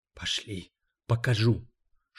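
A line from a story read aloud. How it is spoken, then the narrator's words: Whispered reply. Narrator (Russian): шепотом отвечает мисс Ральф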